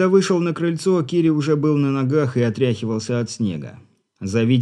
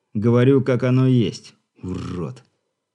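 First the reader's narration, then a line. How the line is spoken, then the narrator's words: Angry, through teeth. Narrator (Russian): зло процедил шаман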